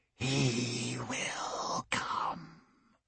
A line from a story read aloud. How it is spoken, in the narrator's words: the old man hissed